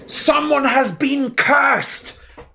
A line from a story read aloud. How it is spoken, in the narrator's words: bellowed Harry